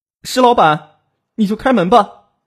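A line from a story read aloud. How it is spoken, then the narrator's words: Loud, flustered, resolute. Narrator (Chinese): 张丽红显得六神无主，下定决心似的大声说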